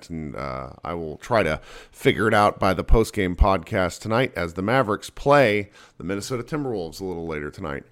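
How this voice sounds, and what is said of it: Sick, rough-sounding voice. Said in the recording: “I am a little bit sick, so my voice is a little terrible”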